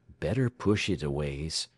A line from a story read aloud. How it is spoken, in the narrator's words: the oiler advised in a low voice